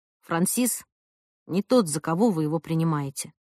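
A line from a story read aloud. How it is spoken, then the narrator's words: Soft. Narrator (Russian): Она сказала мне мягко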